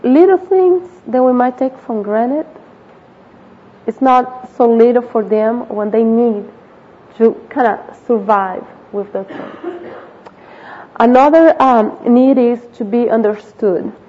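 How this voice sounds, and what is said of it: Accented English speech. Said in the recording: “You might not understand my accent.”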